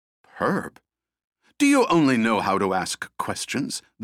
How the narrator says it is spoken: the bird snapped

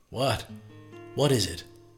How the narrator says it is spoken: he stammered between breaths

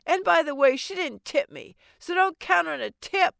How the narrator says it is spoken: I yelled

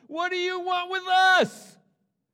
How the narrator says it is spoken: a man in their synagogue who was possessed by an evil spirit cried out

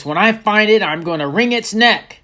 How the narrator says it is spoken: Grandpa Bob shouted

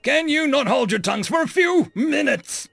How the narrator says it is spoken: Chief Nikonis roared

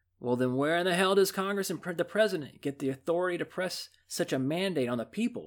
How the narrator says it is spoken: exclaimed an exasperated Franklin

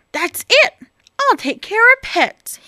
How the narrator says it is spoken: cried

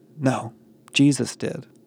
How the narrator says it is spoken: Connor whispered

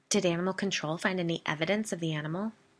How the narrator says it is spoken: Biddy asked

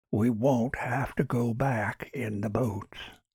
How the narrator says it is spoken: whispered Kutch

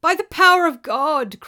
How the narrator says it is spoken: cried the spirit in misery

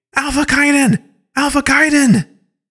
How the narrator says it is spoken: She's yelling

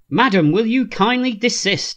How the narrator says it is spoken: he says irritably

